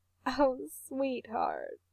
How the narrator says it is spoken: his mom says, laughing a little

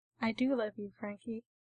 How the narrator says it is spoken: he says, ridiculously calmly, like he's telling Frank about the weather

